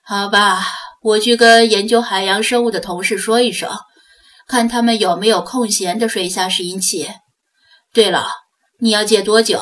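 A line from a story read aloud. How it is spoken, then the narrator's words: Sighing. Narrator (Chinese): 魏康一声叹息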